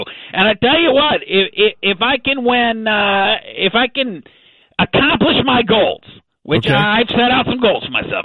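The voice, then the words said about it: Texan accent. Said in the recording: “That's an interesting accent you have. ... Wiley, Texas, brother. ... Texan through and through.”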